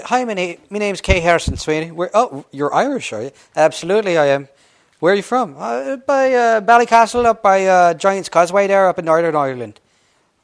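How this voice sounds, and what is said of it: Put-on Irish accent. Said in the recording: “authentic Irishmen, not Americans who can do Irish accents ... they're going to ask for a dialect or an accent”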